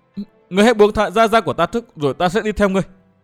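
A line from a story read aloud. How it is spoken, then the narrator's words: Trembling voice. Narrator (Vietnamese): Tiểu Phấn cất giọng run run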